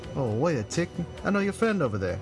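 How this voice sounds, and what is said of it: Put-on British accent. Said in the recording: “Her British accent catches you by surprise.”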